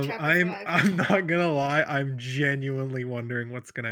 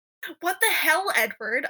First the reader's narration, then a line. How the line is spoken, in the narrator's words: I screamed in his face